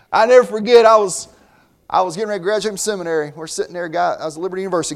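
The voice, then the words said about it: Southern US accent. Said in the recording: “I grew up in the South ... Never will be Northern, man. My accent just gives it away ... Your accent gives it away”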